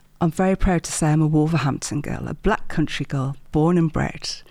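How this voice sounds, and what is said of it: Midlands English accent. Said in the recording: “I detect the Midlands accent”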